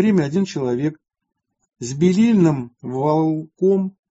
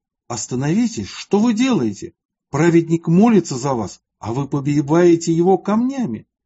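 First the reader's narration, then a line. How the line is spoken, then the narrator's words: Exclaimed. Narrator (Russian): Один человек из рода Рехавого воскликнул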